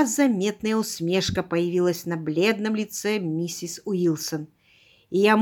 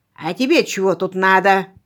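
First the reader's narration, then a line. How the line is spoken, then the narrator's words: Growling. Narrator (Russian): прорычал он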